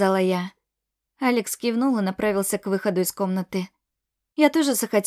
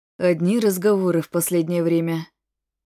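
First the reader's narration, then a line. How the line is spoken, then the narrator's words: Heavy sigh. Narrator (Russian): тяжело вздохнул Алекс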